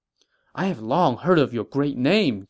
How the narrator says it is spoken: Jiang Gan said excitedly

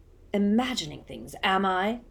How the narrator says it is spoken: growled Moody

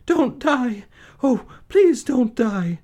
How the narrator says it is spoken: she sobbed

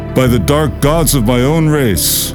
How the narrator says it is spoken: he cried in anger

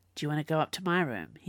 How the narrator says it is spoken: he purred, his meaning obvious

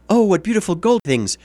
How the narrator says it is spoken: Then she cried

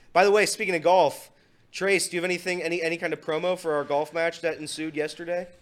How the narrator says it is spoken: Elliot yelled at me

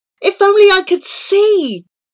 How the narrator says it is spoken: moaned Abu

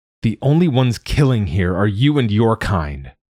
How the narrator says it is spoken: I said hotly

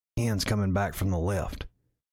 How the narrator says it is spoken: one of the group members whispered

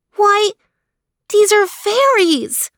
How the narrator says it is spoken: she exclaimed

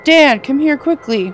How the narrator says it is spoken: I hear the clerk yell from her front doors

